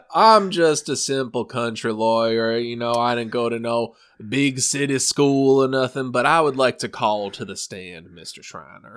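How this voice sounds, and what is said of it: Put-on Southern accent. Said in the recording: “I can't do the southern accent this whole time.”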